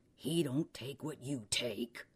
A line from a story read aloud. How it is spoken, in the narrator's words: Randall growled